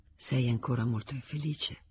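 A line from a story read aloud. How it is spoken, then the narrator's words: Whisper in the ear. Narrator (Italian): voce gli sussurrò all'orecchio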